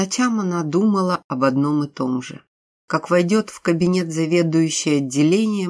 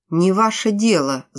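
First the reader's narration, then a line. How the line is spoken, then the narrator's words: Angry. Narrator (Russian): зло сказала Тоня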